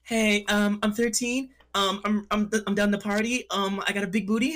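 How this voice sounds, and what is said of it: Put-on girl voice. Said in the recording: “he does a really good girl voice”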